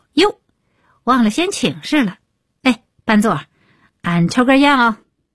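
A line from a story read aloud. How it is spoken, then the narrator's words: Loud voice. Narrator (Chinese): 李伟立刻高声道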